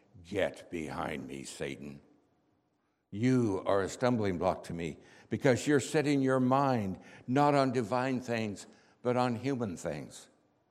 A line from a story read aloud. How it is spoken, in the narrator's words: in an angry voice, he said